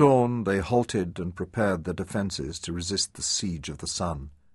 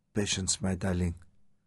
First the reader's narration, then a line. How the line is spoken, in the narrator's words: she whispered to him